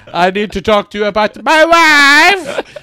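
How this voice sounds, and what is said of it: Comic foreign-accent character impression. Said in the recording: “do a Borat impression”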